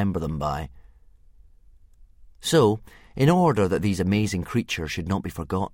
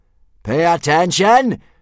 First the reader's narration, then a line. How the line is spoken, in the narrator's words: screamed Gobber the Belch, the soldier in charge of teaching initiation